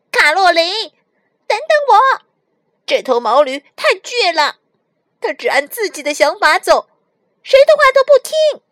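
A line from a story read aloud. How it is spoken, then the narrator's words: Shouting at top of voice. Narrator (Chinese): 小白只能扯着嗓子大喊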